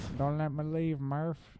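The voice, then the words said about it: Impression with exaggerated Texas accent. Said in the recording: “Your McConaughey impression... you're overdoing the Texas.”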